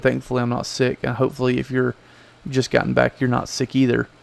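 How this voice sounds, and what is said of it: Rough, worn-out sounding voice. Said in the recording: “in this terrible voice ... from ATA show”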